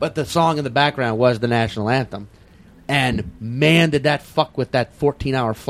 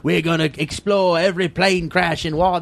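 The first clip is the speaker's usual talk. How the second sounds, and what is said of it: Poor put-on Australian accent. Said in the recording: “That's a terrible Australian accent.”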